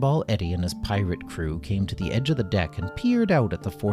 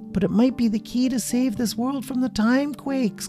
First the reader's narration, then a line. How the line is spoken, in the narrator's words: cried Bramble